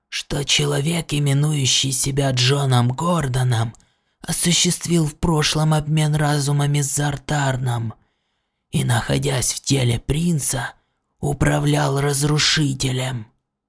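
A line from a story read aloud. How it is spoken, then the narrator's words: Repulsive whisper. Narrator (Russian): продолжал Врил своим омерзительным шепотком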